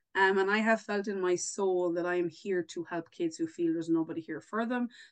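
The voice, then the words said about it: Irish accent. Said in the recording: “in case nobody realized by my accent there, I'm definitely not from the East Coast. I'm further afield. I am Irish.”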